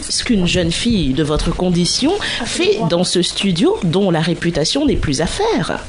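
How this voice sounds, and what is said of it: Put-on posh bourgeois French accent. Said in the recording (French): “j'ai fait un accent de bourgeois”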